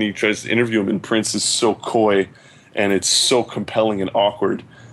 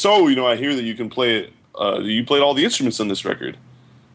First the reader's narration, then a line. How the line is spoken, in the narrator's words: Prince says